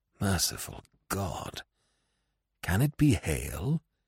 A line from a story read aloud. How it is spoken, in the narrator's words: he muttered